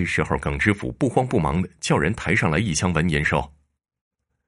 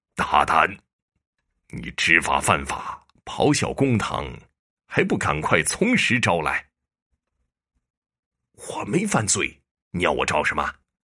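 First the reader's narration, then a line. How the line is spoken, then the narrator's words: Stern, harsh retort. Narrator (Chinese): 陈县令也厉声回击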